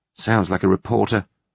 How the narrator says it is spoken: Julia muttered tartly

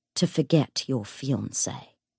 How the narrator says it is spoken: said Alistair coldly

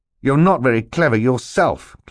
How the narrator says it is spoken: Klaus said fiercely

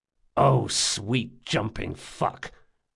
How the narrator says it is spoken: muttered Jean

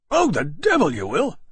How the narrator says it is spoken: Granby exclaimed furiously

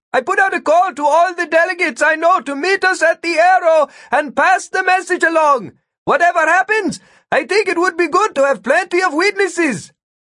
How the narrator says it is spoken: Vikram shout

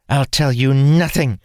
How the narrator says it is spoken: she said, snarling

